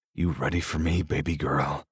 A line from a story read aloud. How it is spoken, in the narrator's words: I growl